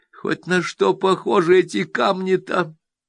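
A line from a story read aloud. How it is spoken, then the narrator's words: Pleading wail. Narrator (Russian): Умоляюще вопит Ленка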